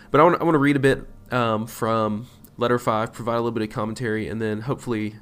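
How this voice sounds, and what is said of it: Congested, stuffy nasal voice. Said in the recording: “forgive my voice and my nose. By the way, I'm uh, stopped up with allergies, so if it sounds like my nose is stopped up, it is because it is ... keep my sniffles to a minimum”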